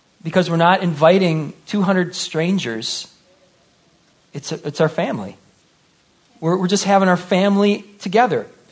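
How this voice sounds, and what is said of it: Emotional, choked-up voice. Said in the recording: “I'm actually a little choked up here”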